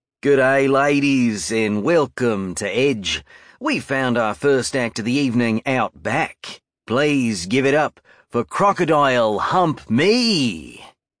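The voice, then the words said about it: Put-on Australian accent. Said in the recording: “a fucking awesome Australian accent”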